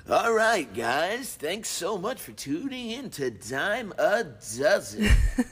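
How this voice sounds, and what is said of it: Announcer-style radio voice. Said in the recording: “Your radio voice.”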